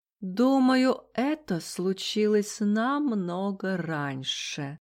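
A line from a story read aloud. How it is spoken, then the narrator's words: Drawl. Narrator (Russian): протянул чайный вампир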